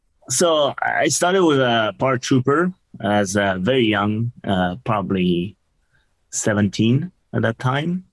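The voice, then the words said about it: French accent. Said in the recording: “You are from France. Everybody should probably know that by now with your accent.”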